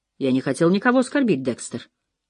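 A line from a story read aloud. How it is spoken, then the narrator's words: Mumbling. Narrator (Russian): пробормотал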